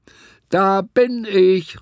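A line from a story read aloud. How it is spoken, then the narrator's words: Calling out. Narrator (German): rief sie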